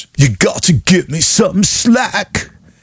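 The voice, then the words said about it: Imitates another person's voice. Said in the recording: “my Rick Ocasek impression”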